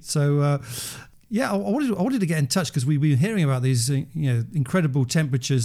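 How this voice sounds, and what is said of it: British accent. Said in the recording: “Despite my accent, I don't actually live in the UK.”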